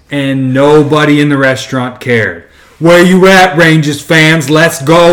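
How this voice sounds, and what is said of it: Usual voice. Nothing is said of it.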